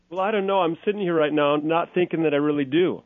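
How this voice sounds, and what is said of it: Minnesota accent. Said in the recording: “You're a Minnesota boy. You have more of an accent than I do. ... I actually notice it more in you than me. ... You have a little stronger than I do.”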